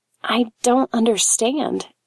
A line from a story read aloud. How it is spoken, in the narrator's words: she whispered